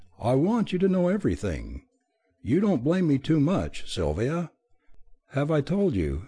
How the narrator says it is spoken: Flora quite simply opened her eyes and said in a relieved tone

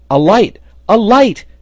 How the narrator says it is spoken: he shouted

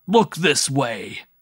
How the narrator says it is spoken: roared Gascon at the top of his voice

